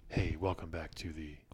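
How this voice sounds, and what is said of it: Whispering. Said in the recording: “Why are you whispering? ... Very whispery today.”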